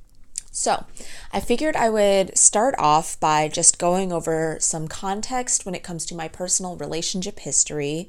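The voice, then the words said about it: Croaky voice. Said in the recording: “my voice is all like croaky. I don't know if you can tell or not”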